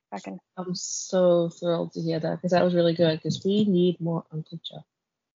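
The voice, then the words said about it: Congested voice with a cold. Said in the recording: “I'm so sorry if you can hear me, and I have a bit of a cold”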